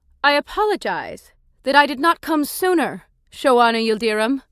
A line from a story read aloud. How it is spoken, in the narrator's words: Ramadami said, her voice raised for all to hear